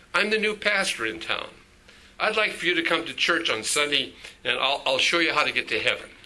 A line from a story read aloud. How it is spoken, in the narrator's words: The man thanked the boy kindly and said